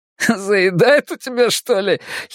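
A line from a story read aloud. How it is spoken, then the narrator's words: Giggling. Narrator (Russian): хихикнул кто-то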